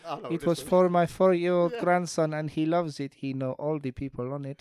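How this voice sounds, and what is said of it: Reads in a put-on accent. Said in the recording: “I'm going to read it in an accent because it will help.”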